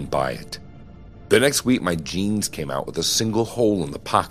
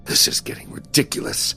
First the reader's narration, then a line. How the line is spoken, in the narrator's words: I muttered to myself